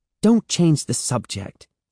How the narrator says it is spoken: she snapped

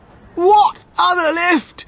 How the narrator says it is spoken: screamed Mrs

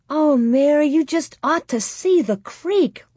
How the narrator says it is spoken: Laura cried

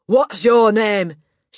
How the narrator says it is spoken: she barked

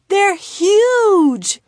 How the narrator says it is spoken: exclaimed

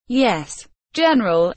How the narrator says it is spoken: the officer replied nervously

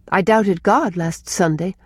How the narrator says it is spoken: said Rilla

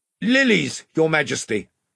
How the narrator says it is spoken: shouted Ranulph

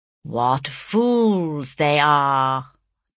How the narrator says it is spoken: drawled Mr

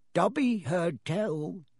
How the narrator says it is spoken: he said hoarsely

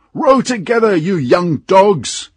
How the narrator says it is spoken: shouted a voice from the boat

